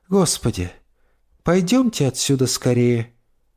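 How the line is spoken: Tired speech. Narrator (Russian): устало произнесла миссис Дасс

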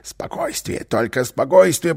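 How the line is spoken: Whispered. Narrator (Russian): прошептал Карлсон

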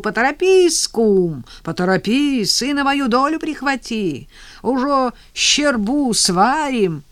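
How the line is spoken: Shout after someone. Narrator (Russian): тот, крикнул вдогонку

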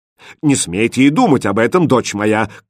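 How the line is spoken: Indignant king's shout. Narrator (Russian): крикнул возмущенный король

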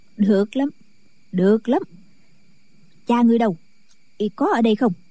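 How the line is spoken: Smiling. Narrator (Vietnamese): Kim Hoa bà mỉm cười

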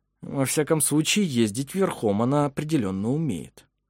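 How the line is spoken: Through gritted teeth. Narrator (Russian): процедил сквозь зубы Вемонт

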